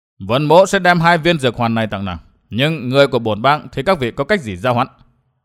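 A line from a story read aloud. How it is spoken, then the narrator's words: Cold. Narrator (Vietnamese): lạnh lùng, nói với Tam Hiểm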